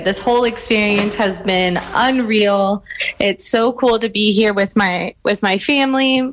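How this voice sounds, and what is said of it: Excited, energetic voice. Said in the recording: “You're very excited. I can hear it in your voice.”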